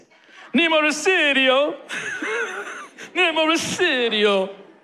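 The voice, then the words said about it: Put-on Italian accent. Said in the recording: “do it in an Italian accent.”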